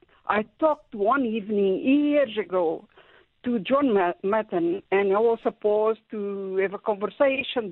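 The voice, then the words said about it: Foreign accent. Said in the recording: “my foreign accent”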